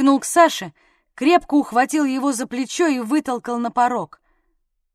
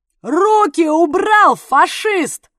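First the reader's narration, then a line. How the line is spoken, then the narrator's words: Deafening yell. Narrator (Russian): Заорал он так, что за уши схватился даже привычный Дятлов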